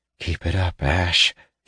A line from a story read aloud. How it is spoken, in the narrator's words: he murmured under his breath